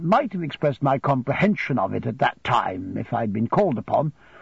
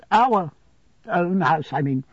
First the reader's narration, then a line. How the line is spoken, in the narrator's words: faltered my mother, evidently frightened